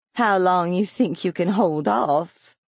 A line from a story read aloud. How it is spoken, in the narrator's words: Laverne murmured and began to giggle